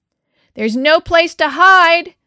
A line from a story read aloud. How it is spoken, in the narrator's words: Manuel shouted after Raphael